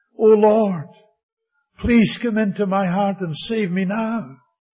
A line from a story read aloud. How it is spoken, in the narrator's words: She cried right out over the phone